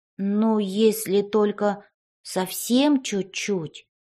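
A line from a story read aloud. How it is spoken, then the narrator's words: Drawn-out, child's voice. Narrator (Russian): Протянул мальчик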